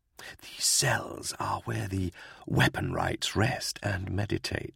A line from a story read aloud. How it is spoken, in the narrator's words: Mabon whispered to Gaunt